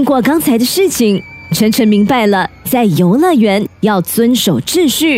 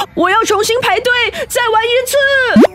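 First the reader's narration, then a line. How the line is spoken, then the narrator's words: Shouting. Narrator (Chinese): 晨晨嘴里喊着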